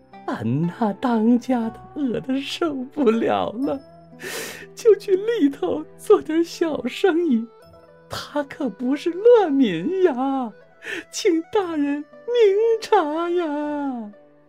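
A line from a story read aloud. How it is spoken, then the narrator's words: Middle-aged woman weeping. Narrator (Chinese): 一位中年妇女头伏地哭着说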